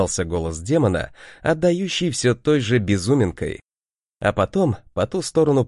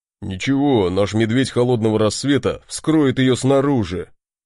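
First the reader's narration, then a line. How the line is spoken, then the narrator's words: Deep bass voice. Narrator (Russian): пробасил Барди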